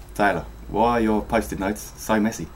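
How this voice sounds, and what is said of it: Unsure put-on South African accent. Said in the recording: “the accent is South African ... Is that South African, or is that good enough? ... they sound like Australians that aren't sure of themselves”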